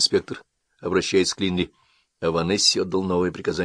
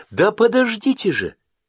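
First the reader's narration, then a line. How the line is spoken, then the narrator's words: Exclamation. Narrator (Russian): воскликнула Хаверс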